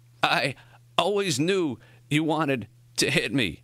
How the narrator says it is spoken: Morrie gasped

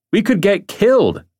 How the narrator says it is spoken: Simons yelled back, fear in his voice

